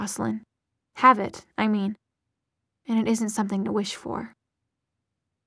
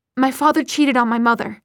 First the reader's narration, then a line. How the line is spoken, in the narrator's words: Isabel blurted out